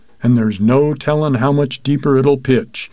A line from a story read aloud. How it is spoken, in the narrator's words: he sighed in a moment's pause